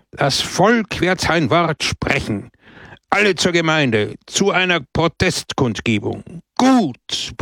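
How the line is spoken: Crowd roaring. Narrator (German): brüllte das Volk

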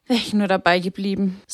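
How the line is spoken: Sighed. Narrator (German): seufzte sie

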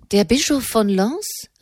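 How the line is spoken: Astonished calling out. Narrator (German): rief Enemont erstaunt

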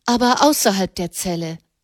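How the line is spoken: Interjecting. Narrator (German): warf Katharina ein

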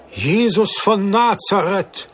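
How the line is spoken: Astonished exclamation. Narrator (German): rief der Kaufmann erstaunt

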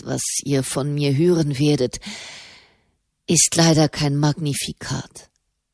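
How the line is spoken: Sighing pope. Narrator (German): seufzte der Papst

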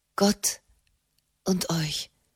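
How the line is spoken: Shaken murmur. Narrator (German): murmelte Frau Raymond erschüttert

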